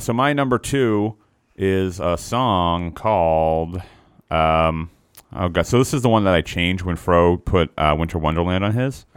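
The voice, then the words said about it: Low, rough morning voice. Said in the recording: “My voice is down. My voice. I got real bad morning voice. ... Real mad Dean Martin voice. ... Demon voice”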